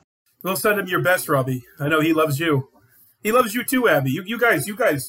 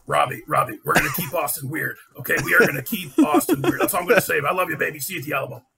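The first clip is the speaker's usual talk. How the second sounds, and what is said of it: Alex Jones impression. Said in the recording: “that beautiful Alex Jones impression ... your original Alex Jones impersonation”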